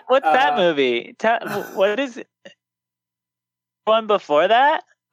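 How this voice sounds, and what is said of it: Mock clueless moviegoer voice. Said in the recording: “that was my impersonation of the ignorant moviegoer”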